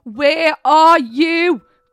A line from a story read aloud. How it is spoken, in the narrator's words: Gareth screamed into the empty space